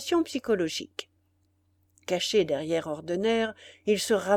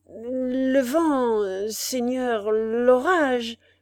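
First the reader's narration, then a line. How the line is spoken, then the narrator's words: Trembling stammer. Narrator (French): balbutia le tremblant Spiagudry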